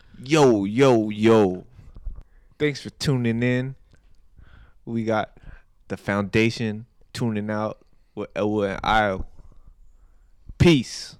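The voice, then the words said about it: Imitated tough voice with a lisp. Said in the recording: “your Mike Tyson accent? ... It's like an Asian Jay-Z ... like an Asian Jay-Z with a lisp”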